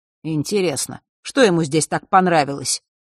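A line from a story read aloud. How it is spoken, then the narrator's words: Displeased grunt. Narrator (Russian): недовольно хмыкнул Фэш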